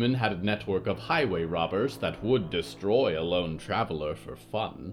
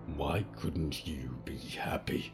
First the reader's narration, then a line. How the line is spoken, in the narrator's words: He growled